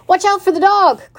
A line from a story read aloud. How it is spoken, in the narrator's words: cried the sheep